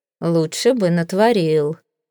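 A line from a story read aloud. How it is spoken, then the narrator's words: Gloomy. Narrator (Russian): мрачно сказал Таузенд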